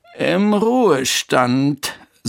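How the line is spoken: Sighing. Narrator (German): seufzte Bertha

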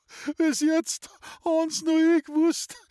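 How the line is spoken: Sobbing. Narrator (German): schluchzt die neue Vorsteherin

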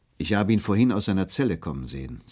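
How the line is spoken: Plain. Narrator (German): sagte ein Wärter

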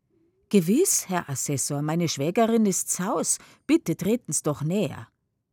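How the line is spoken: Loud. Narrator (German): Laut aber sagt sie

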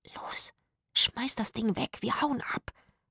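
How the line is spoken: Whispered. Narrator (German): flüsterte Zora

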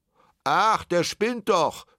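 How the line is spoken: Call from crowd. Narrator (German): rief jemand aus der Menge

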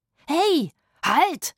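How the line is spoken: Shout. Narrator (German): schrie Rufus

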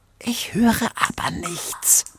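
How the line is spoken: Whispered reply. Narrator (German): flüsterte Wexilla zurück

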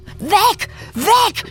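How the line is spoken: Shouted. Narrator (German): schrie

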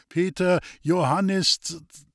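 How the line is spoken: Slightly unsure voice. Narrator (German): Der Führer sagte mit etwas unsicherer Stimme

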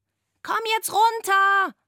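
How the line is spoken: Scream. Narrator (German): schrie Antonia

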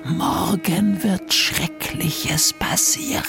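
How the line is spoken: Man whispering. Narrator (German): Der Mann flüsterte

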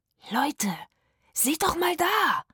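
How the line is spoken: Panting. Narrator (German): japste Rufus

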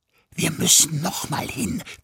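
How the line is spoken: Hissing. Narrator (German): zischte sie

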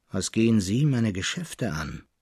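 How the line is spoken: Dry, rough old man. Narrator (German): erwiderte der Alte ziemlich trocken und rau

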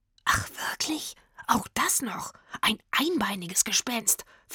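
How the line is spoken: Whispering. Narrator (German): flüsterte Rufus

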